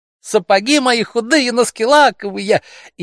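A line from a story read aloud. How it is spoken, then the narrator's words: Laughing shout. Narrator (Russian): опять закричала, смеясь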